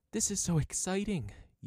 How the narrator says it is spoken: exclaimed

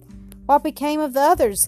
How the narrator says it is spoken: gasped Alan

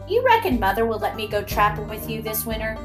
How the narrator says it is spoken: asked

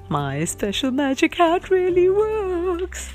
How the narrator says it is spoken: he chuckled

